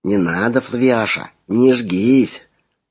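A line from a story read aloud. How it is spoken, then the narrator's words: Quiet, tender, confiding. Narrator (Russian): Голос зазвучал тихо, с ласковыми доверительными нотками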